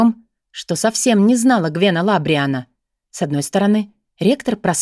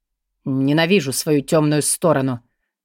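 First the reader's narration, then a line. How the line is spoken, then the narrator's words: Muffled mutter. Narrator (Russian): приглушенно пробормотал он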